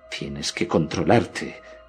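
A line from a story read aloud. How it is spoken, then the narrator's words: Low voice to self. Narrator (Spanish): me dije en voz baja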